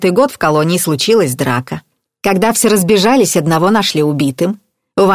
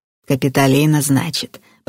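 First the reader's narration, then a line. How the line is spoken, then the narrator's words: Old woman's mutter. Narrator (Russian): пробормотала старуха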